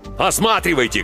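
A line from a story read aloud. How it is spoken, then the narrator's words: Shouting. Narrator (Russian): кричал Клаус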